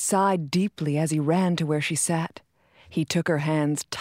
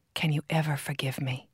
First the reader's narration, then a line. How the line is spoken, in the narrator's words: he whispered